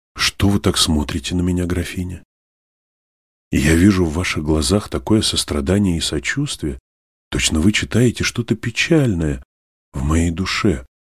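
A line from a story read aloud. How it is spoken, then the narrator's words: Gentle, smiling. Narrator (Russian): сказала наконец Алиса, ласково улыбаясь Наль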